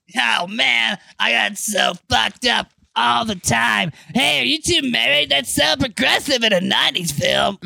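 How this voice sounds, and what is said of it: Raspy, worn-out imitated voice. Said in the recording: “doing a Steve-O voice? ... My voice has been destroyed from years of drug abuse.”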